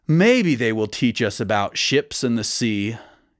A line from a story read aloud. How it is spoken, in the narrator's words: he sighed